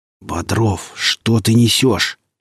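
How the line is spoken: Hissed. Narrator (Russian): прошипел Глазков

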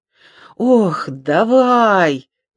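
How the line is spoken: Groaning. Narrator (Russian): простонал Коптилка

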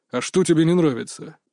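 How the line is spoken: Grumbling. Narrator (Russian): проворчал тренер

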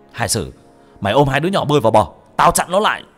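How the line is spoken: Shouted. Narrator (Vietnamese): Anh hét lên

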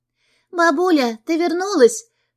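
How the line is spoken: Joyful shout. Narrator (Russian): радостно кричит она

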